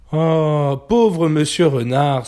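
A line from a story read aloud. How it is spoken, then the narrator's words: Sighing piglet. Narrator (French): soupira le porcelet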